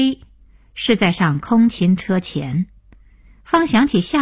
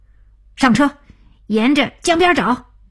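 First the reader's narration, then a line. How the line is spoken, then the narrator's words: Excited shout. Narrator (Chinese): 小丁激动大叫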